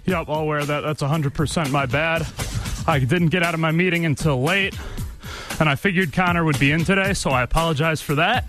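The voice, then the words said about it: Out of breath, winded speech. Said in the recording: “Pretty embarrassing that I'm out of breath here on the air. ... And you're out of breath. Thank you for hustling over here.”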